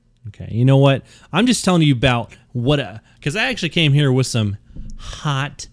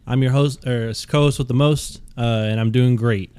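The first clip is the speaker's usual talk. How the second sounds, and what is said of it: Robotic voice. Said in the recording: “why are you talking like a robot?”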